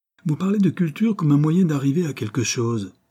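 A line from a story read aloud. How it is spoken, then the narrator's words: Exclaimed. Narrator (French): s'écria Ruth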